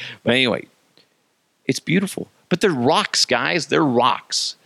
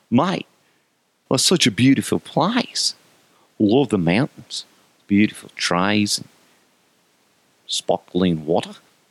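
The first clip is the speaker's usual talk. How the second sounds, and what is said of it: Poor put-on Australian accent. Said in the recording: “That's a horrible impression of an Aussie accent.”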